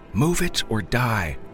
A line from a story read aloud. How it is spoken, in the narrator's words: Ronnie yelled, as if he was again in charge of his own destiny